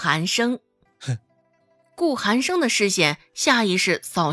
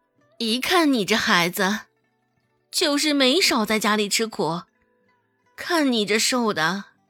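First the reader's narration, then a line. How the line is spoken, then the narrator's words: Sighing. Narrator (Chinese): 顾母又突然叹了口气，道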